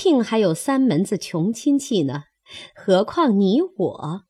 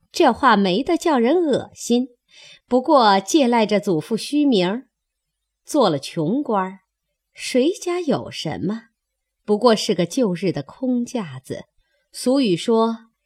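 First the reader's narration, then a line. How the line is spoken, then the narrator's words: Laughing. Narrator (Chinese): 凤姐笑道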